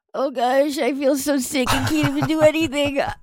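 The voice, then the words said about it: Sick, stuffed-up allergy voice. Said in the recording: “my impression of me last week when I had really bad allergies ... That is a great impression.”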